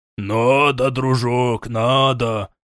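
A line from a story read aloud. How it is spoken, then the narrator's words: Cheerful growl. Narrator (Russian): весело прорычал медведеподобный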